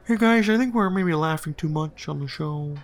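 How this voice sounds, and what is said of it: Impression of Lorne Michaels. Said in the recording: “Colin, that's really good. Keep going. ... do a Lorne impression”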